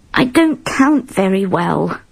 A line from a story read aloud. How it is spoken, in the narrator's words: he said miserably